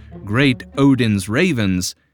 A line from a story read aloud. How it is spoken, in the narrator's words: Ron Burgundy exclaims